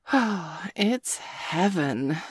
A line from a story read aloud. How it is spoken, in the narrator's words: Sabrina said dreamily